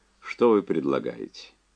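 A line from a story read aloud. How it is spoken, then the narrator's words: Calm question. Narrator (Russian): Кэп спокойно спросил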